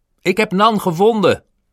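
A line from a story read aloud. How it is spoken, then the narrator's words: Shouted. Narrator (Dutch): riep Roger op dat moment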